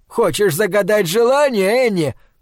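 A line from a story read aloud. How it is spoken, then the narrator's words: Shouted. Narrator (Russian): крикнул Пол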